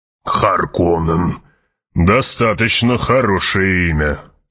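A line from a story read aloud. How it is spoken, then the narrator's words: Grumbling. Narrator (Russian): проворчал барон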